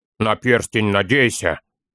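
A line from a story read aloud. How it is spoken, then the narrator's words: Grumble. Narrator (Russian): проворчал Торин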